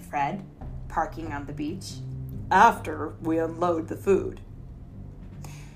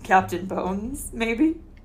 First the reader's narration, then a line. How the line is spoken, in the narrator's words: Fred chuckled